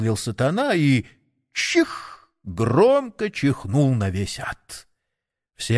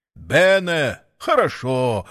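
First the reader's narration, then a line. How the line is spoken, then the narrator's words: Pleased devil's exclamation. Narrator (Russian): воскликнул сатана и от удовольствия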